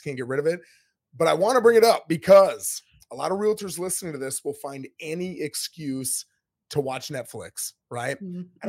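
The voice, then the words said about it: Hoarse, strained voice. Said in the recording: “my voice is out. I've had this now for about 3-4 weeks”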